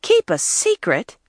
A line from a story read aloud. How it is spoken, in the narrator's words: April interrupted scornfully